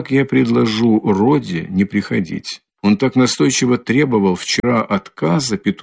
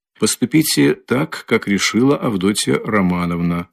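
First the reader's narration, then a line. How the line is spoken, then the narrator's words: Calm prompt answer. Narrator (Russian): спокойно и тотчас же отвечал Разумихин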